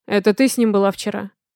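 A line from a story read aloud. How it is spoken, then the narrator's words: Rude question. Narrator (Russian): Грубо спрашиваю я у нее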